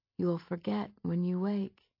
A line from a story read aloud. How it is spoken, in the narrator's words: it would whisper